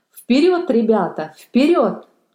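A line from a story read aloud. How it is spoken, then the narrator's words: Shouted while running. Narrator (Russian): крикнул он на бегу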